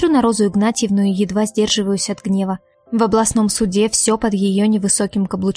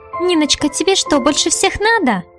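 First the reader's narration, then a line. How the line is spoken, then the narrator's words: Nasty squeaky voice. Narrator (Russian): Противным писклявым голоском уточняет судья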